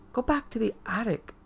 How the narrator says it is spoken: Elizabeth Ann sobbed softly

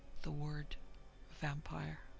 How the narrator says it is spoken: he lowered his voice

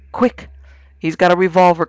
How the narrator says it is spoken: cried Vance

